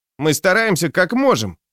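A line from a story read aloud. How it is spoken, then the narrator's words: Grumbling young man. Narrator (Russian): проворчал второй паренек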